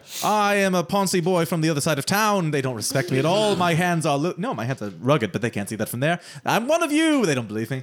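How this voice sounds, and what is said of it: Upper-class accent. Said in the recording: “Your accent's too upper-class.”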